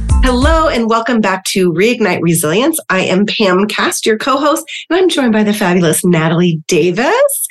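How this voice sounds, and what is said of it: Congested, sick-sounding voice. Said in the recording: “this is not my DJ, FM DJ voice. ... This is actually a congested voice because I'm sick right now.”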